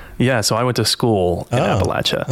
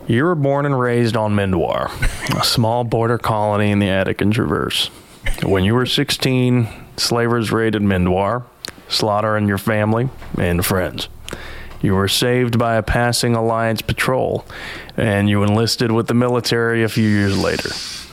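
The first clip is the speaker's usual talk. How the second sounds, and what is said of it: Put-on Appalachian accent. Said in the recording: “Appalachian accent, just don't move your upper lip when you speak”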